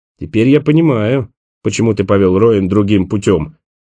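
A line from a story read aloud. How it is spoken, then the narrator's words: Grumble. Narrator (Russian): проворчал Николас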